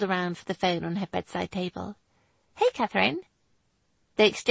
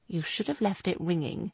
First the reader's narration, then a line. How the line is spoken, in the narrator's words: he mumbled